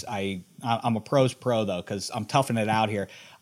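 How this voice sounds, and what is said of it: Sick, strained voice. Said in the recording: “apologize for my voice. ... I coughed up something”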